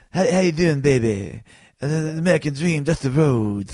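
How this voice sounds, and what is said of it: Poor Dusty Rhodes impression. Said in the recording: “the worst imitation of Dusty Rhodes ever ... he had a very distinct voice ... that's the worst imitation ever. I'm so bad at imitations.”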